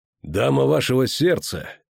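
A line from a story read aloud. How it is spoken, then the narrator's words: Icy tone. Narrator (Russian): Геральт ледяным тоном развеял тщетные ожидания рыцаря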